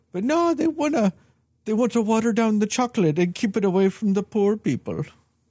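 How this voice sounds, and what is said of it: Exaggerated weird German-like accent. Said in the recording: “some bonkers ass weird maybe German accent”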